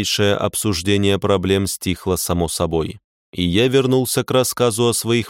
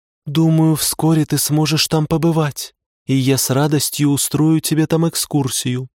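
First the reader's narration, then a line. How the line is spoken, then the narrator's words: Said by a girl, sighing. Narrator (Russian): сказала девушка, а затем вздохнула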